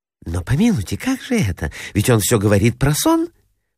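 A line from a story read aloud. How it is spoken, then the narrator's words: Anxious whisper. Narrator (Russian): прошептала Анна Николаевна, встревоженная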